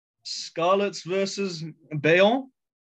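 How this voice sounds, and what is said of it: Put-on French accent. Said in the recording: “Lovely accent there. I love that. ... I had a bit of a French flair.”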